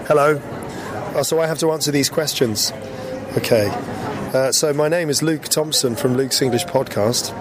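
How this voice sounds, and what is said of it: Hoarse, partly lost voice. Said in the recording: “I've lost my voice. Well, half of it. So if you're like, that's not ... it is. It's just the way that I'm speaking because I have a bit of a cold”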